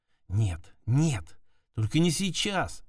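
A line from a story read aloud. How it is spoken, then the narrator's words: Whispered. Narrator (Russian): шептала она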